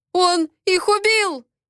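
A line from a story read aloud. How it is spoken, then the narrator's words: Frightened yell. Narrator (Russian): испуганно заорал один из хулиганов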